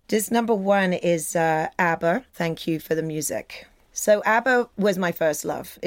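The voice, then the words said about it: British accent. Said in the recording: “your identity as a Brit ... my accent”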